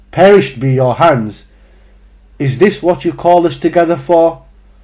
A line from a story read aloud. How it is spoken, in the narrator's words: The redness rushed to his cheeks as he continued yelling